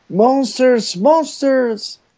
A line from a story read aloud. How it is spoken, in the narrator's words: I will yell